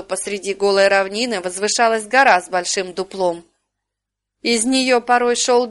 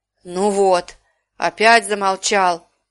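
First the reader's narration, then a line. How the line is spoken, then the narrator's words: Angry growl. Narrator (Russian): Зарычал он, гневно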